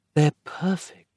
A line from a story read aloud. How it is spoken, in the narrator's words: Roz whispered dreamily